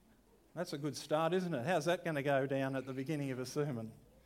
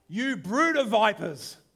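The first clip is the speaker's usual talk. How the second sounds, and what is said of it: Dramatic, theatrical preaching voice. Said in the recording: “in my best dramatic voice”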